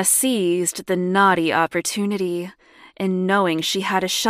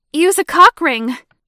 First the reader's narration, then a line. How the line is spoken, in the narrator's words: shouted in caps